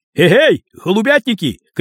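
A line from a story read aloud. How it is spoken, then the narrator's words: Shouted. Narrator (Russian): крикнул он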